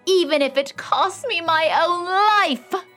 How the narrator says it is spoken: she cried

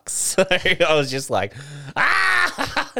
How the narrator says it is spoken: Like laughing uncontrollably, but also crying inside

